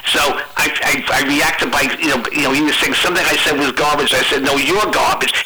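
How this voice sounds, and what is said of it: American Northeast accent. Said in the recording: “it's the way you say garbage. It's from the East. ... It's a Northeast accent. ... It's kind of annoying.”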